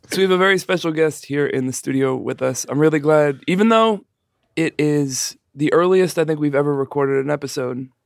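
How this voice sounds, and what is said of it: Slightly hoarse voice. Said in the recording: “I'm a little hoarse today.”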